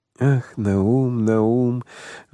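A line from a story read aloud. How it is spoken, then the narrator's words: Sighed. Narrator (Russian): вздохнул Моисей Моисеевич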